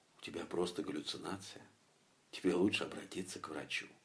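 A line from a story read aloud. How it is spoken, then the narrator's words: Inner whisper. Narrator (Russian): Мое современное образование дало о себе знать и как бы нашептало во мне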